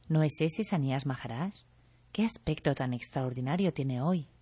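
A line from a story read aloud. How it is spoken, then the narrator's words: Said quietly. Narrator (Spanish): Algunos dijeron en voz baja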